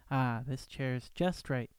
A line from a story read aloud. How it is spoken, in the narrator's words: she sighed